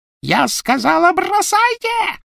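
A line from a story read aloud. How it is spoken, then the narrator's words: Shrill shriek. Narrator (Russian): провизжала Беллатриса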